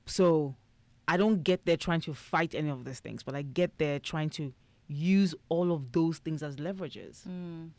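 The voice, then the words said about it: Foreign-accented English. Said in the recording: “I have an accent, meaning that I'm an immigrant”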